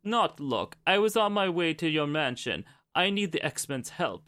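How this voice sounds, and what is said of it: Dracula-like attempted Russian character voice. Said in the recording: “Your version of Colossus sounds like Count Dracula ... I cannot do Russian”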